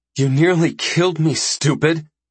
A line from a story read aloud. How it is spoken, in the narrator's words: Iko says between pants